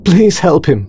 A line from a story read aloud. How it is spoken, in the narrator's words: she cried